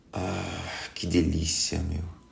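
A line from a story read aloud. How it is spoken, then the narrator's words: Sighing. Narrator (Portuguese): ele suspira e diz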